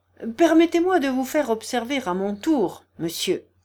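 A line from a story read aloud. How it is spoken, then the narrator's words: Angry tone. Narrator (French): commença-t-il d'un ton fâché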